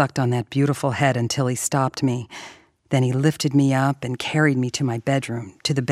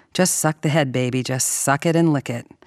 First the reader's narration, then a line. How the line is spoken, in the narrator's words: laughed and said